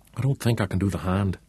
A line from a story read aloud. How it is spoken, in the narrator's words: whispered, shaking his head